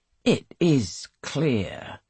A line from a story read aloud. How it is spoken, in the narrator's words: he says slowly